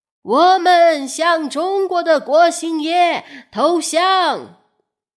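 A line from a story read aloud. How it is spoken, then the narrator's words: Shouting. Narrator (Chinese): 奎一对郑成功喊道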